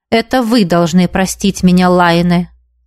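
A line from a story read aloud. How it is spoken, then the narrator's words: Even-toned reply. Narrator (Russian): ровным тоном отозвался преподаватель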